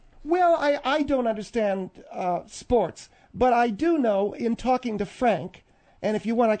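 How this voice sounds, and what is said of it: Usual voice. Nothing is said of it.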